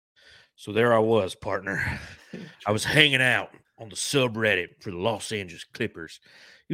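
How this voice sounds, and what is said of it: Put-on cowboy accent. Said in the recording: “I don't know if I should talk in this accent the whole time just because I'm wearing a cowboy hat... I'll continue with the accent then, y'all”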